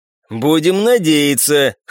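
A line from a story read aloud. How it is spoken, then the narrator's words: Horse chuckling. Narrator (Russian): хохотнул конь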